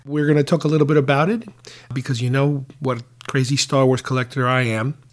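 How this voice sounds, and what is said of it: Sick-sounding, not fully recovered voice. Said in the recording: “apologize for my voice because I am still not 100% there yet ... still recovering from the post-celebration cold”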